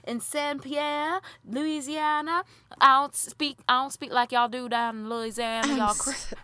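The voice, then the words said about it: Put-on Louisiana accent, not very good. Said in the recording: “I cannot with this accent. ... I'm not that great.”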